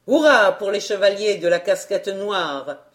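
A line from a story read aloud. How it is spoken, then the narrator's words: Vibrant voice. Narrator (French): fit-il d'une voix vibrante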